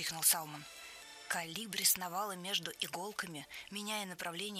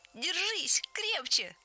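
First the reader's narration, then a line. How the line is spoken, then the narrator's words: Shrill squeal. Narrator (Russian): взвизгнул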